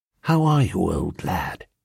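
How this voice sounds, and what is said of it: Hushed, soft bedside voice. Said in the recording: “in a hushed bedside voice”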